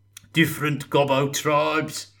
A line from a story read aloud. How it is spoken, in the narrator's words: cackled Gotrek